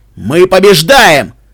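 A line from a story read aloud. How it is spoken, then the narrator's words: Barked. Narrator (Russian): рявкнул Рокс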